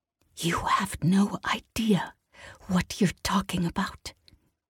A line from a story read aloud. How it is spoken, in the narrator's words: Kaelin whispered